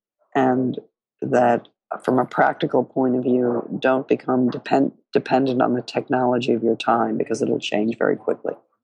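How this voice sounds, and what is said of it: Hoarse voice with a cold. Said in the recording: “my hoarseness and cold”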